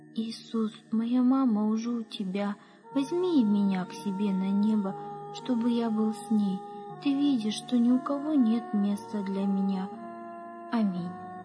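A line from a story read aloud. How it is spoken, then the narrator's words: Boy's sighing whisper. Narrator (Russian): Мальчик вздохнул и прошептал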